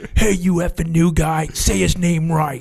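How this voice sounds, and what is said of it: Imitates another person's voice. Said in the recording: “That's a pretty good Gardner imitation.”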